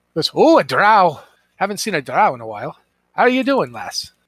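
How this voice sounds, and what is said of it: Put-on Scottish accent. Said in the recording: “I'm Scottish. I don't know why. Apparently, the dungeon master just pulled out Scottish accents.”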